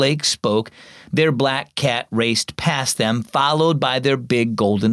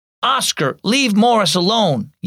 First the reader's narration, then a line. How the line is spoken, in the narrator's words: yelled Blake